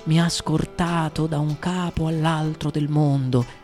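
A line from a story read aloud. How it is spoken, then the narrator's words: Plain. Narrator (Italian): disse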